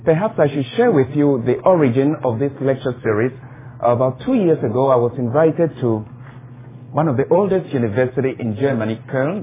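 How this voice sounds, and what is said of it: Ghanaian West African English accent. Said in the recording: “You can tell from my accent already I'm not an American. I'm from Ghana, West Africa”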